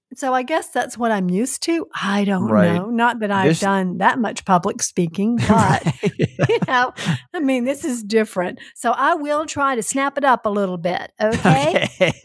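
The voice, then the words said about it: Strong Southern US accent. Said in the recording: “your Southern accent ... So bad. Oh, my gosh. I am so Southern.”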